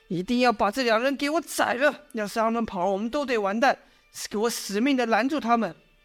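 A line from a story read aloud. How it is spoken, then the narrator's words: Loud shouting. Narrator (Chinese): 这将军喊得再大声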